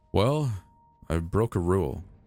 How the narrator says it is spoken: he said with a sigh

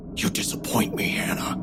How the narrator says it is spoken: whispered, so softly only I could hear

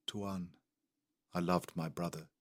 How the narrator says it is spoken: he said quietly

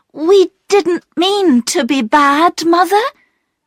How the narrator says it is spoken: cried Bobby

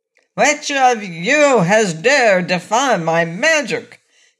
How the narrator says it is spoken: he shouted in a terrible voice

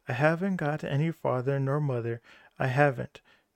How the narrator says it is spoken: Manabozho started off again with his doleful humble, but succeeded in jerking out between his big sobs

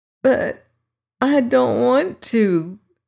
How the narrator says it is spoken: quavered the voice in a tone so dismal

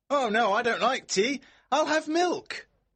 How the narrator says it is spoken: George shouts back

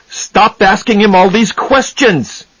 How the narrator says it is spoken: he shouted

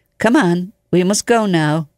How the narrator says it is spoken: gently he took him by the arm, and he said

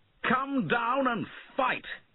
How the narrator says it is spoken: he shouted

